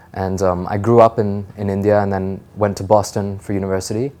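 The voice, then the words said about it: American-sounding accent. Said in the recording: “your accent doesn't seem like you were born or raised here ... I may sound American”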